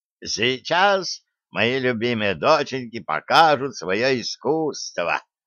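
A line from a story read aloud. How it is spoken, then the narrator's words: Creaky voice. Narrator (Russian): проскрипел именинник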